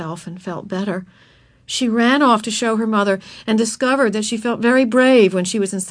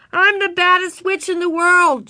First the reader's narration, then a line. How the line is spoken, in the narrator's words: shouted, her voice muffled by the mask